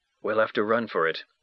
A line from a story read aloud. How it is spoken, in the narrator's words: I said in a whisper